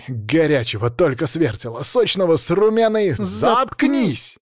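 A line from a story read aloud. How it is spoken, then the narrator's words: Barked in unison. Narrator (Russian): Хором гаркнули Злата и Батур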